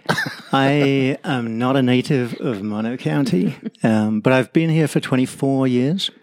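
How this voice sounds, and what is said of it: English accent. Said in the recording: “you've got a bit of an accent ... My accent is English”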